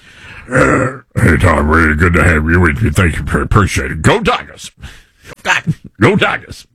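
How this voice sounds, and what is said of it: Imitated thick Louisiana coach accent. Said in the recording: “has a high pitched voice ... That's a pretty good accent ... You need subtitles.”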